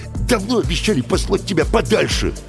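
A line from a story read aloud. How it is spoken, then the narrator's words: Snapping retort. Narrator (Russian): огрызнулся бригадир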